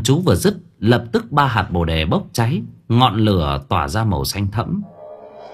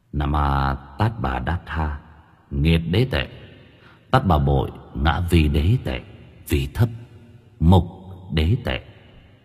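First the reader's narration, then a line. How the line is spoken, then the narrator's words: Soft chanting. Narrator (Vietnamese): Tâm Trúc khẽ niệm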